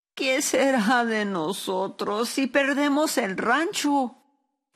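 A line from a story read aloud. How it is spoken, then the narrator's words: Sobbing. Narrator (Spanish): Sollozó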